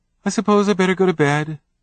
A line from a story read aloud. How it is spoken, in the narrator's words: Mary sighed